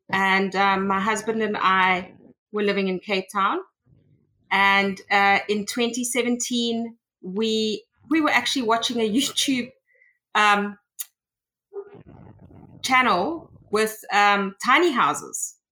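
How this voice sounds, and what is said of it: South African accent. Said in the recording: “as you can probably tell by the accent, I am from South Africa”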